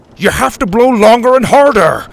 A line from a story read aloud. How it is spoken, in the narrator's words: Grandpa shouted